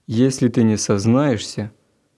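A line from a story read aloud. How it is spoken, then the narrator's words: Menacing. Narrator (Russian): грозно продолжал собеседник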